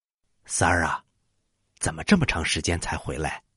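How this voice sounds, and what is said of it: Quiet, hushed voice. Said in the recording (Chinese): “庞涓小声的问”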